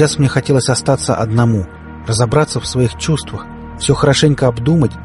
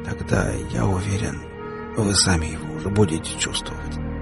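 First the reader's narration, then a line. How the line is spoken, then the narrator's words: Near whisper. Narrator (Russian): почти шепотом произнес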